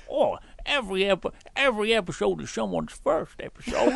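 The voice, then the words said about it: Southern-sounding impersonation voice. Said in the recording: “doing that voice ... You always go so southern whenever you do an impersonation”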